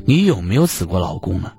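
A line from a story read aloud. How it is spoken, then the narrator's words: Furious wife. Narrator (Chinese): 受害者老婆无比愤怒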